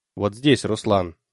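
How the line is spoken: Plain. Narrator (Russian): сказал Мехбао

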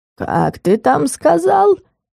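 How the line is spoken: Hoarse rasp. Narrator (Russian): прохрипел магический инвентарь

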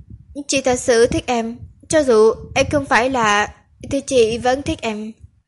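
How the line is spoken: Choked with emotion. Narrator (Vietnamese): Cô nghẹn ngào nói

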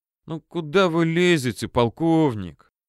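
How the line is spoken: Sighing question. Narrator (Russian): тот полковник, что приехал из 4-й дивизии, вздохнул и при этом спрашивает

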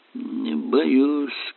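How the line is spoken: Mumbled. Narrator (Russian): промямлил Эллери

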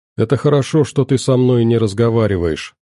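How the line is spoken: Plain. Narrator (Russian): наконец сказала она

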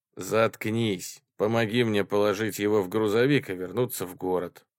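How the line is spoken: Plain. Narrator (Russian): сказал Коул

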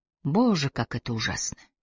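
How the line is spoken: Whisper. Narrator (Russian): прошептала Трой

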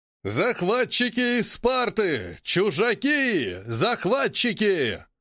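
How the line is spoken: Roaring man. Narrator (Russian): Взревел Саан Сала, загорелый мужчина

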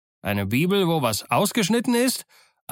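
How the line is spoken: Mocking reply. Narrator (German): antwortete Silver höhnisch

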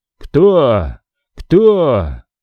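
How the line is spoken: Man wheezing hoarsely. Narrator (Russian): Мужчина захрипел

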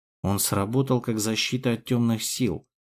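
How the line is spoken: Mutter. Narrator (Russian): пробормотал я

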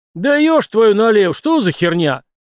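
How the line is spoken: Driver yelling. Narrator (Russian): заорал водила, плотный и привычно потный мужик Степан

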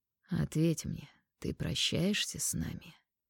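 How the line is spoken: Quiet, hoarse. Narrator (Russian): Его голос тихий, хриплый

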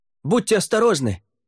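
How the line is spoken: Warrior shouting after. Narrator (Russian): крикнул вслед воин, охранявший ворота

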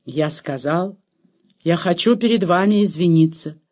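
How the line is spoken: Very formal tone. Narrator (Russian): повторил он самым официальным тоном

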